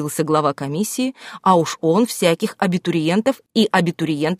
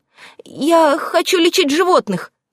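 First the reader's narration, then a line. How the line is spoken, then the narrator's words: Embarrassed, faltering babble. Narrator (Russian): Окончательно смутившись, пролепетала девушка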